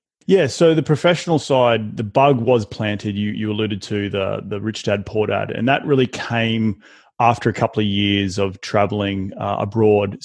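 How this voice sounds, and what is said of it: Non-American accent. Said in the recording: “obviously everyone can hear your accent. You're not from America.”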